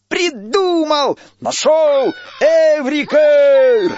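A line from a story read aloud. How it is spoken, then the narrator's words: Joyful shouting. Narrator (Russian): Радостно кричал он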